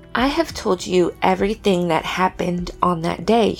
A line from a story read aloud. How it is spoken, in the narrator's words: she said